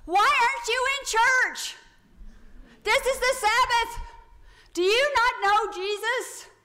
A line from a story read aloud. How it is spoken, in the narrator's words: he's shouting this to everybody